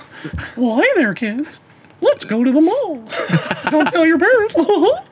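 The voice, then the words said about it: Mickey Mouse impression. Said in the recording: “Mickey Mouse, go.”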